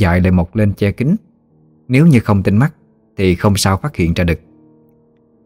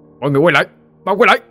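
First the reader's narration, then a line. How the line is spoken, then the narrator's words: Sudden shout. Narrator (Vietnamese): Tiếng hét bất ngờ của ông Định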